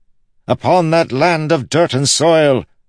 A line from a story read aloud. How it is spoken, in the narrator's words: Wit shouted